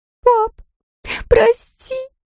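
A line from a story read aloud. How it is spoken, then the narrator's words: Sobbing. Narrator (Russian): всхлипнула она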